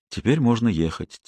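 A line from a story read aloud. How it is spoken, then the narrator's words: Quiet. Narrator (Russian): тихо сказала Робин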